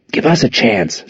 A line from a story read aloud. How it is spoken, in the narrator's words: Zack hissed